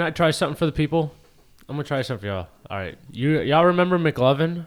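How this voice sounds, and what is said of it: Usual voice. Nothing is said of it.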